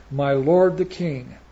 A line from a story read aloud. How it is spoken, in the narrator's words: he cried out and he said